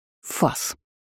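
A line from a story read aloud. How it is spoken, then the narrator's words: Growled. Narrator (Russian): рыкнула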